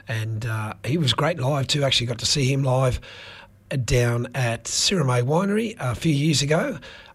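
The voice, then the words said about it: Croaky, strained voice. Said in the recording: “Croaky ... my voice is shut down a little bit tonight ... from one croak to another”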